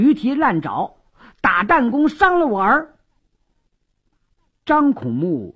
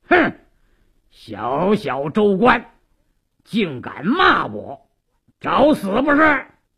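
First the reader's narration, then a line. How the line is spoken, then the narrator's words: Sharp stern shout. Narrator (Chinese): 鲁斋郎厉声喝道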